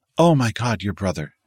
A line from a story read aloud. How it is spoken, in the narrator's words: she gasped